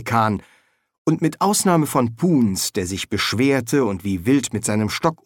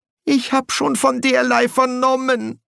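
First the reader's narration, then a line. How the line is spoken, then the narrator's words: Whimpering official. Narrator (German): wimmerte der Quästor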